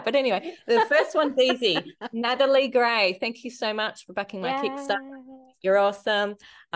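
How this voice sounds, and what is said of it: Australian accent. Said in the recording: “you're doing it with an Australian accent ... You get to hear your name in Australian accent”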